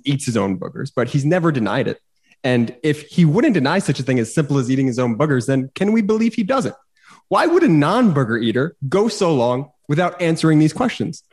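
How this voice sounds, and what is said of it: Tucker Carlson impression. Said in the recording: “That's my Tucker cadence ... great Tucker impression.”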